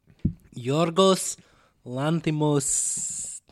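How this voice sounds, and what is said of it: Put-on Greek accent. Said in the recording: “That was a Greek accent, sure. ... it was pretty good.”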